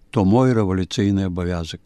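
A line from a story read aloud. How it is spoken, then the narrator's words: Sad answer. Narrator (Belarusian): той сумна адказаў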